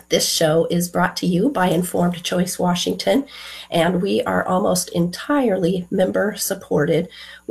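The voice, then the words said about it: Rough, unwell voice. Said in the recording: “my voice has seen better days. I'll be muting a lot to cough”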